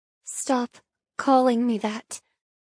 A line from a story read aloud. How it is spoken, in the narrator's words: I mutter